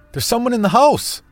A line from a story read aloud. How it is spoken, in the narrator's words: I barked with extreme adrenaline coursing through me